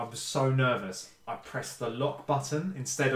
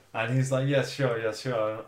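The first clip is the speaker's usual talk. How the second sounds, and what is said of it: Put-on German accent. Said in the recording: “what was that accent? German.”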